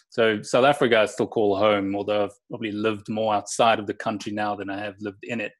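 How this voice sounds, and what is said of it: South African accent. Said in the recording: “South Africa ... It's where I developed ... and, you know, my accent.”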